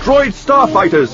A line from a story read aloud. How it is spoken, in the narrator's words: he shouted